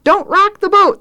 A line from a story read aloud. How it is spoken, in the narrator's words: Thad cries